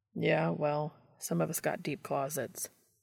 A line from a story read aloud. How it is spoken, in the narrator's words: Dean muttered in reply